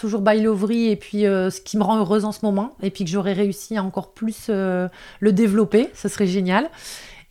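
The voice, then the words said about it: Northern French ch'ti accent. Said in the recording (French): “mon accent de ch'ti ... l'accent du Nord”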